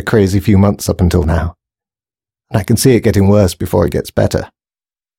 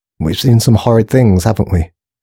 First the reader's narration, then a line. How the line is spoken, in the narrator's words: said Grace calmly